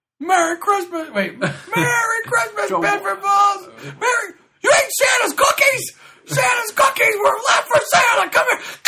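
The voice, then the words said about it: Jimmy Stewart impression. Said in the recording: “Jimmy Stewart. ... Jimmy Stewart's my main one.”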